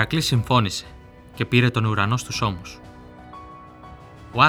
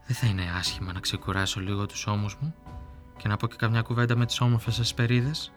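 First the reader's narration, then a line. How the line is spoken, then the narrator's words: Murmur. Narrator (Greek): μουρμούρισε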